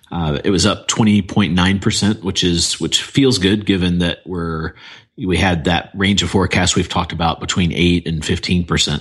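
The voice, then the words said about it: Voice lower than usual, tired. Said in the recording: “my voice is lower than usual. I've been talking nonstop for like the last 6 days.”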